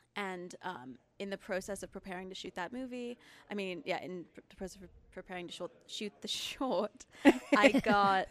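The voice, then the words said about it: Mixed English and American accent. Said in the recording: “I also have a weird accent because I'm originally from England ... I have like a really confusing accent”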